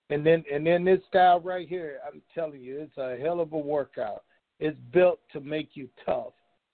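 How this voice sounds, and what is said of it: Tired-sounding voice. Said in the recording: “I sound a little tired because I had like a 2-hour karate class”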